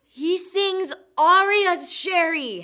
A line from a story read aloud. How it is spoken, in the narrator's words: Hattie yelled